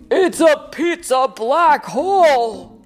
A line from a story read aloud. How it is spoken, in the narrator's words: Dad shouted